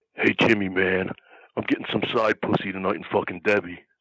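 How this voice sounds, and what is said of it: Impression of a friend's voice. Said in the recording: “does a good Dennis Carluzzo. do your Dennis. ... That's perfect. ... Oh, that's great.”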